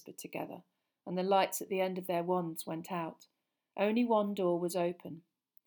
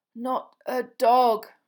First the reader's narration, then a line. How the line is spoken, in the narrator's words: Ron moaned